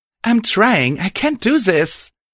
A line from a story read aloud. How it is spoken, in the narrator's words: she cried